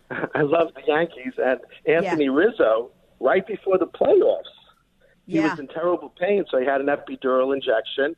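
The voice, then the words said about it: New York accent. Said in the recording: “you could probably tell from my accent, I'm a New Yorker ... I love your accent.”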